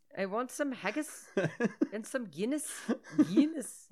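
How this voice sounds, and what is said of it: Shaky put-on Scottish-Irish accent. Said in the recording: “You're actually trying to talk like this... You're doing better... I can do it a little, but then I fall apart. And I don't know if this is Irish... speaking Irish or am I speaking Scottish?... I think that was Scottish... keep my tongue pressed against the roof of my mouth and say everything like it was a question”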